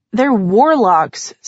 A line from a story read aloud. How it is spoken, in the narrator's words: said in a dismissive tone